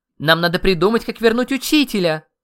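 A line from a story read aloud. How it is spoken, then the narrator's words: Very loud squeal. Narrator (Russian): Громко-громко заверещала Алла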